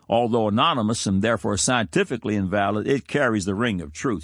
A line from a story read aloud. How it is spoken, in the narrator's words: she says